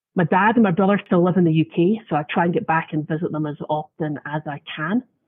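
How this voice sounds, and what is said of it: Scottish accent. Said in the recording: “listeners can probably tell from my accent that I did not originate in the US ... I was in Scotland”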